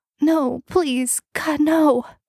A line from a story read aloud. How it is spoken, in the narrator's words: The girl was crying and whimpering